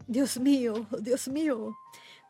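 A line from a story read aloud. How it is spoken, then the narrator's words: Moaning, wailing voice. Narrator (Spanish): con voz gemebunda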